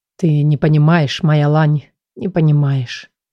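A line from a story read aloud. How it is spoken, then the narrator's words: Quiet, as if to himself. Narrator (Russian): произнес он вдруг тихо, продолжая какую-то мысль и будто разговаривая с самим собой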